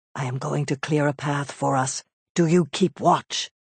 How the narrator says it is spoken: Nisus whispered

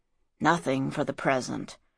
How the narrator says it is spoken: muttered Sheftu

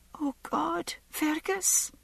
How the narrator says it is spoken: Masali whispered, her voice filled with agony

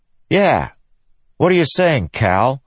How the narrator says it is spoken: Scar snapped

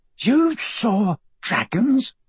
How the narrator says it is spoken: Michael gasped

